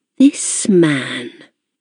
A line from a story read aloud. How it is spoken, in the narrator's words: she murmured